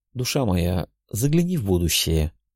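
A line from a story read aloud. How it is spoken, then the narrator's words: Tender request. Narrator (Russian): ласково попросил свою спутницу Рувендил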